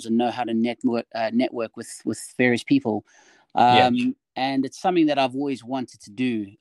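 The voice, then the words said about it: South African accent. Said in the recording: “I'm originally, if you haven't heard in the accent, I'm originally from South Africa.”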